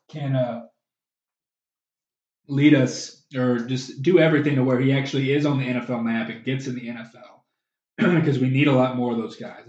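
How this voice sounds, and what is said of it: Hoarse, fading voice. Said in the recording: “I'm kind of losing my voice,”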